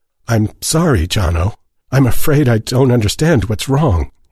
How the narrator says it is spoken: he said, hating the quaver in his voice

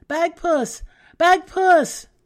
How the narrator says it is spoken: she cried out

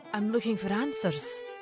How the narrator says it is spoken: Mary said nervously

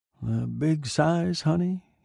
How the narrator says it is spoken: muttered to himself

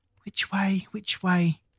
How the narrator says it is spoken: said anxiously to herself

